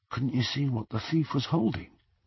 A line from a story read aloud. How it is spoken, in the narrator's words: Ron whispered